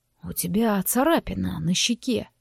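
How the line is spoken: Muttered. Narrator (Russian): пробормотал

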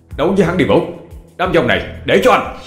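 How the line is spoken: Shouted. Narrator (Vietnamese): Anh thét lên với Vũ

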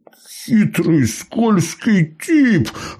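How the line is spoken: Laughing loudly. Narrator (Russian): Расхохотался Сергей

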